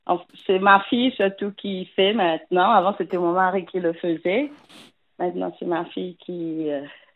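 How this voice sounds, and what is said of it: Slight Mauritian accent in French. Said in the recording (French): “Vous avez un petit accent ... Je viens de l'île Maurice.”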